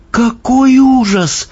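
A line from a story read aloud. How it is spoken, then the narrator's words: Exclaiming. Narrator (Russian): воскликнула Софи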